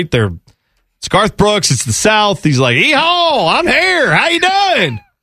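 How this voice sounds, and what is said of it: Exaggerated fake Southern accent. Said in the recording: “his fake Southern accent”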